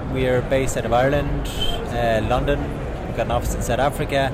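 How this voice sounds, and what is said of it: Texan accent. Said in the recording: “Can you not tell from my accent? ... You do definitely have a Texan accent.”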